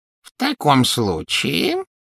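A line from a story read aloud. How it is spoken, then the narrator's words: Silky ingratiating voice. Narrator (Russian): вкрадчиво произнес гоблин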